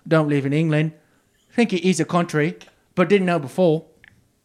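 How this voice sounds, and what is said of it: Put-on accent. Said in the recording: “I got to do this in a little accent”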